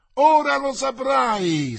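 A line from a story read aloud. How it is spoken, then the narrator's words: Shrieking chorus. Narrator (Italian): strillarono gli altri in coro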